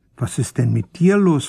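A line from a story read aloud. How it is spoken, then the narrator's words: Plain. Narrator (German): fragte ich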